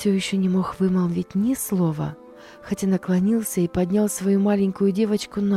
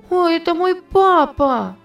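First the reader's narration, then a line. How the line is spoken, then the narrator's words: Shouting. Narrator (Russian): закричала она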